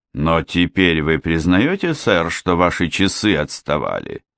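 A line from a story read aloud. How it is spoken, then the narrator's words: Calm question. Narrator (Russian): спокойно спросил Хемингуэй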